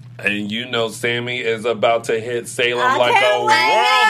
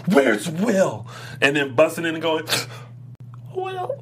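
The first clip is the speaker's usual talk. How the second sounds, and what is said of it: Imitates another person's voice. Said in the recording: “That was very good. ... impersonation. That was awesome.”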